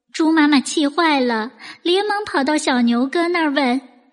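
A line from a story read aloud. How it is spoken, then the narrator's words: Choked with tears. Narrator (Chinese): 小胖猪哽咽着说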